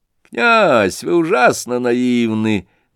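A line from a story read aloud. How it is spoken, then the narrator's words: Mocking. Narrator (Russian): насмешливо заметил племянник Лебедева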